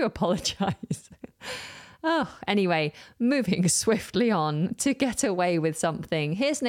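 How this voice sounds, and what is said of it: Usual voice. Nothing is said of it.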